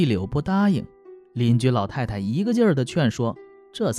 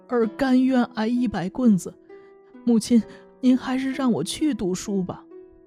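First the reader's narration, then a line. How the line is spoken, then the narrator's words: Sobbing. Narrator (Chinese): 长福大哭着说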